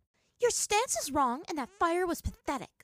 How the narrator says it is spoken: Azula shot at her brother

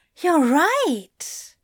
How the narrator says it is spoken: Zira gasped

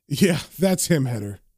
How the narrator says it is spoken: John laughs and says

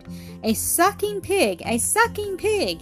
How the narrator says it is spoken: Jack, exclaimed

